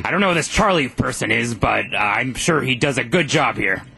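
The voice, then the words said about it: Alex Jones impersonation. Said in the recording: “you're very committed to the role ... our producer ... does a great Alex Jones impersonation”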